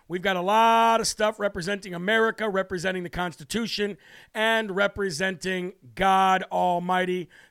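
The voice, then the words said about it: Strained voice, losing his voice. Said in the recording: “My voice is loose. I'm losing my voice.”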